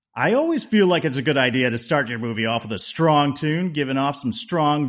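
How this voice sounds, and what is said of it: Usual voice. Nothing is said of it.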